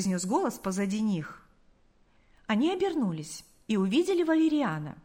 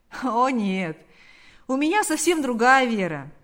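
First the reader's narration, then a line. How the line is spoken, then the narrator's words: Laughing. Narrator (Russian): ответил, рассмеявшись, Валериан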